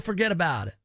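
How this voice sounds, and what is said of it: Put-on Italian accent. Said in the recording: “You do an Italian voice? ... Probably a bad one ... That's pretty good”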